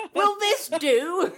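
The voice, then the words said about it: Exaggerated, poorly done English accent. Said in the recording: “I did a terrible English accent.”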